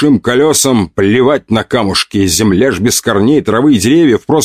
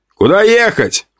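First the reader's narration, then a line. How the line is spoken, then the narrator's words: Shout. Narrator (Russian): крикнул я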